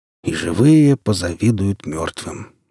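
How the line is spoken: Sighing. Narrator (Russian): вздохнул Григорий

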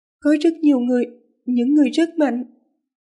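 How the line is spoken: Weary, trembling voice. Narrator (Vietnamese): không biết vì lạnh hay vì sợ mà người nàng vẫn run rẩy nhẹ, giọng nói mỏi mệt

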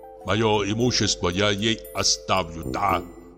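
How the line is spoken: Muttered. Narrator (Russian): бормотал он

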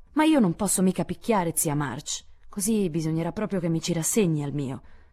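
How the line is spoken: Resigned sigh. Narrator (Italian): sospirò fatalmente Joe

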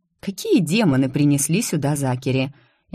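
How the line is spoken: Mocking. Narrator (Russian): другой голос добавил насмешливо

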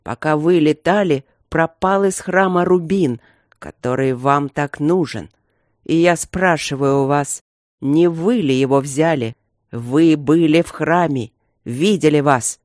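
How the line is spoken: Barely restrained growl. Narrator (Russian): рыкнул Красный Король, едва сдерживаясь

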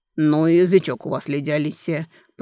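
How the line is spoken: Displeased grumble. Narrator (Russian): проворчал недовольный Дан Герхард

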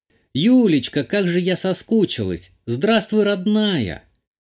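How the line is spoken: Exclamation. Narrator (Russian): Воскликнула мама

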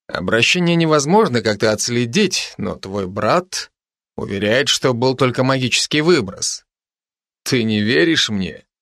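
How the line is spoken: Mocking question. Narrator (Russian): Насмешливо поинтересовался Райан

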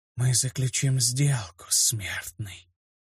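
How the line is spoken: Whisper. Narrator (Russian): прошептал голос

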